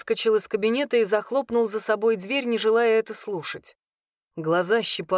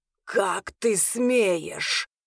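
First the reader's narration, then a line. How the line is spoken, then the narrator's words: Snakelike hiss. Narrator (Russian): зашипел Арвин змеей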